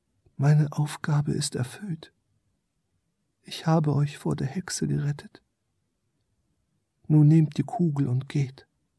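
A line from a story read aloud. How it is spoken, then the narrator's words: Small creature speaking softly. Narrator (German): sprach leise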